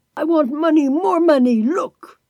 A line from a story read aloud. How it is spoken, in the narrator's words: Eugen still shouting